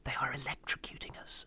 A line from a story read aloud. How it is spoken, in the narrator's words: I turned to Louise and whispered